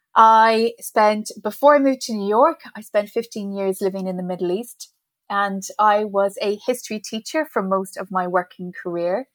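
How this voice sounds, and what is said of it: Irish accent. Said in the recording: “I'm originally from Ireland. I'm not a New Yorker, as you can probably tell by my accent.”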